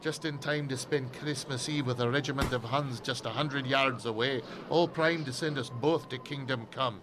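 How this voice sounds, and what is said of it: Scottish accent. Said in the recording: “You Scottish? ... did my accent give me away?”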